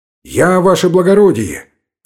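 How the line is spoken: Frightened shout. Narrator (Russian): крикнул Гайнан испуганным голосом

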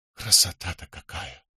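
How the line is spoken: Whispered. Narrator (Russian): прошептал он

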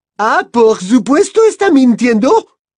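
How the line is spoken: Shouted. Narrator (Spanish): gritó Madame Maxime

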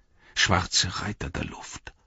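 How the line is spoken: Murmuring. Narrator (German): murmelte Pippin

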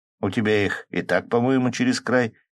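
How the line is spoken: Laughing chuckle. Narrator (Russian): хохотнул Колян

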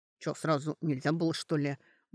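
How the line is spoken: Grumbled. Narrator (Russian): буркнула Сашка

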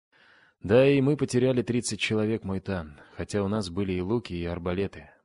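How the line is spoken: Grim reply. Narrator (Russian): мрачно ответил подошедший Лодин

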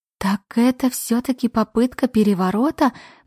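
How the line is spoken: Moaning. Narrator (Russian): простонала я

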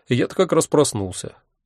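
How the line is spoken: Sighing. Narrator (Russian): вздохнул я

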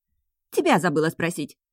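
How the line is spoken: Girl snapping back. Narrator (Russian): огрызнулась девушка

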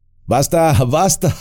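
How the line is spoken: Group laughing shout. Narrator (Spanish): gritaron los elfos riendo

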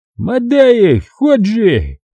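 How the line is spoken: Yelling. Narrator (Russian): заорал он

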